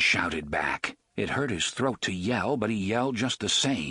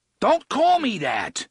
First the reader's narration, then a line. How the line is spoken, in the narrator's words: Eddie shouted